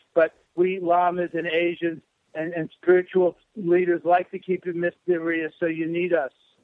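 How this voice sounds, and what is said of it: Brooklyn New York accent. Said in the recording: “You're a Lama with a New York accent, you know, or well, Brooklyn, sort of a Brooklyn, New York accent.”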